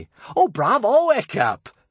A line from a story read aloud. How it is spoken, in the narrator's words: cheered Kamikaze excitedly